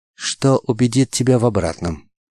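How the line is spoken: Soft, girlish young man's voice. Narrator (Russian): Мягким, почти девичьим голосом спросил юноша

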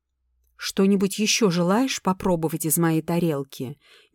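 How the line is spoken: Ungracious, through teeth. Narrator (Russian): нелюбезно процедила

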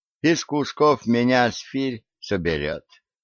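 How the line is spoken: Calm. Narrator (Russian): спокойно ответил Борис

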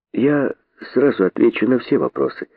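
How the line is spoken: Calm thoughtful reply. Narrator (Russian): спокойно отвечал задумавшийся

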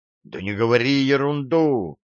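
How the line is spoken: Heated exclamation. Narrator (Russian): с горячностью воскликнул я

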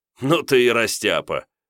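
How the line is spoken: Chuckling. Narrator (Russian): хохотнул водитель

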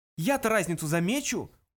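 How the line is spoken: Exclamation. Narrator (Russian): воскликнул Артур

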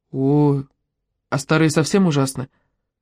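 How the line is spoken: Sighing. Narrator (Russian): вздохнув, спросил Тоби

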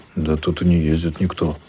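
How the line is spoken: Puzzled muttering. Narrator (Russian): озадаченно пробормотал он

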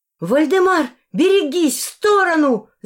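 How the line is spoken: Screaming at full strength. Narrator (Russian): закричала изо всех сил

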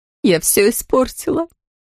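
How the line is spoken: Sobbing, broken voice. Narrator (Russian): судорожно всхлипывая, прерывистым голосом произнесла она

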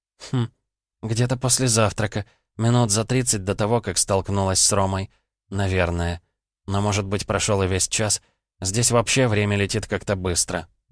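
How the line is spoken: Uncertain, hesitant. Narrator (Russian): неуверенно проговорила она

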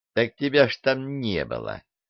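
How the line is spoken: Snide swindler. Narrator (Russian): ехидно ощерился аферист

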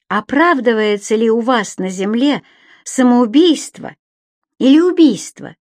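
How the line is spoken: Plain. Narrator (Russian): спросила она

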